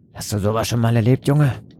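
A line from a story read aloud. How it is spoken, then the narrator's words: Grunting sailor. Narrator (German): grunzte einer der Seemänner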